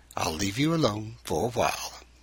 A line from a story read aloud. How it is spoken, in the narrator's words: Pastor Colson said quietly